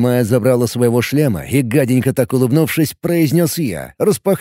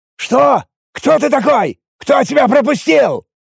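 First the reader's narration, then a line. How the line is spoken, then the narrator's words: Irritated shout. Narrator (Russian): Выкрикнул Заралем Со, не испуганно, а скорее раздраженно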